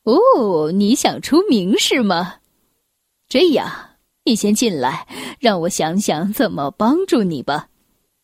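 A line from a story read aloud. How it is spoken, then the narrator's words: Amused, laughing. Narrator (Chinese): 那位先生笑着说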